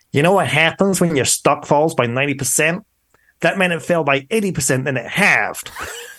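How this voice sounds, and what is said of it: Snarly imitated New York accent. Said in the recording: “I can impersonate a New York accent on your podcast, which is going to be appalling ... he has this snarly New York accent ... That's not a bad accent”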